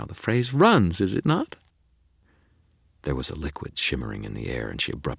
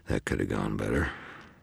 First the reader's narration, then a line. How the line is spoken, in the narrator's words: mumbled